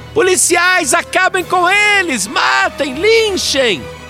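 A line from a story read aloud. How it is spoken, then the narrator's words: Frenzied fanatic shouting. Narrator (Portuguese): ela gritava mais do que torcedor fanático em dia de decisão de campeonato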